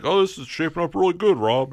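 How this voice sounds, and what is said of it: Imitates another person's voice. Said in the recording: “Still working on that impersonation... You're getting there. You're getting there. Keep practicing.”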